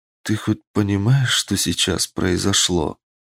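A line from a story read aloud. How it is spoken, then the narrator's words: Tired question. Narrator (Russian): устало спросила она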